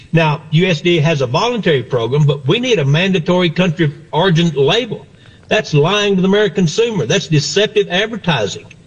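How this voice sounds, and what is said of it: Texas accent. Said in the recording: “you can tell by the accent. Texas guy”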